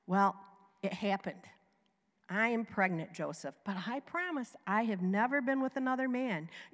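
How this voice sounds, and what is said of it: Southern American accent. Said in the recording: “is that your Jewish accent? ... I have a southern one.”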